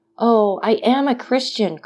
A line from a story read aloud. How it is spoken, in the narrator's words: cried Dantes, guessing instinctively that this man meant to abandon him